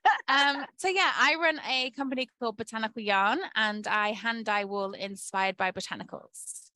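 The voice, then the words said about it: Yorkshire English accent. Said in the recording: “my weird accent because I'm from Yorkshire in the UK”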